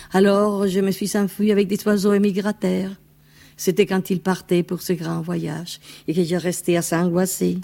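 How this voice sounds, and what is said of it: Spanish accent speaking French. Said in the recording (French): “avec un accent espagnol”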